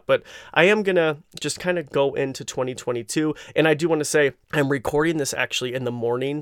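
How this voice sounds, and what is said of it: Hoarse, scratchy morning voice. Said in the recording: “my voice sounds a little hoarse ... it kind of sounds like I have a scratch in my throat ... I kind of sound like a frog”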